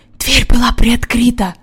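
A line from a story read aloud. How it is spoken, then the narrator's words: Whisper. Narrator (Russian): прошептал Джон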